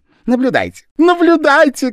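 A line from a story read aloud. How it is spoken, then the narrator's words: Shouting. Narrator (Russian): кричал японец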